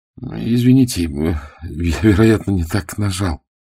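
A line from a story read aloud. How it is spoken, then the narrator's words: Sheepish mumble. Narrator (Russian): промямлил он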